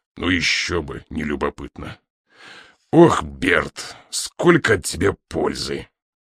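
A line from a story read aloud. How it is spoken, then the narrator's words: Raised menacing voice. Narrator (Russian): Инспектор грозно повысил тон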